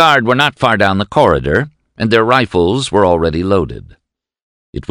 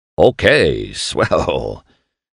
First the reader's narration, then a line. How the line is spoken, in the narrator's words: Shad chuckled